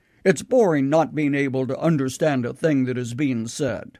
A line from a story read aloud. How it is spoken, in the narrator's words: they would grumble